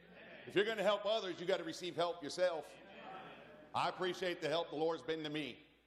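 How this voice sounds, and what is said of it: Loud, piercing preaching voice. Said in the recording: “I realize my voice is loud. If it's piercing to you”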